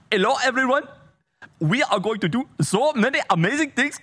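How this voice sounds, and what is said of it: Put-on Indian accent. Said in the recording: “adopt an Indian accent ... Can you imagine if she just adopted an Indian accent?”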